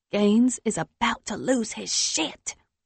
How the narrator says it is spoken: she whispers in the phone

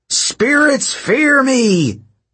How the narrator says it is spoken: Hedge bellowed

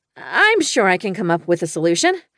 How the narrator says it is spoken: I said brightly

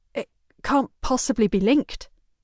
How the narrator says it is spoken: she stutters

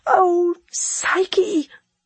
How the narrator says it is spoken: I sobbed

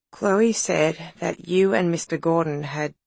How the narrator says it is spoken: Madison said in a muffled voice

